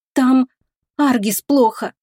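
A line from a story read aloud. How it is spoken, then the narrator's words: Strained, forced words. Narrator (Russian): кое-как выдавила из себя Оливия, когда первые эмоции схлынули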